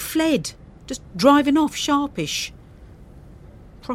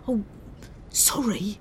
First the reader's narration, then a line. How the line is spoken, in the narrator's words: He whispered